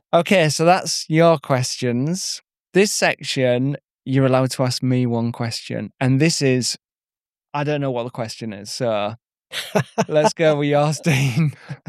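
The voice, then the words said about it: Hybrid Yorkshire accent. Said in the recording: “you can tell from your accent that you're not from West Yorkshire ... you're from the East Riding of Yorkshire ... I've got a bit of a hybrid Yorkshire accent”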